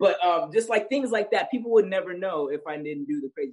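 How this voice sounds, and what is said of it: Usual voice. Nothing is said of it.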